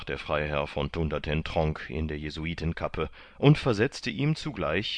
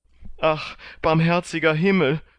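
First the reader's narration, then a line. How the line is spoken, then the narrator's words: Sobbing. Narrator (German): schluchzt er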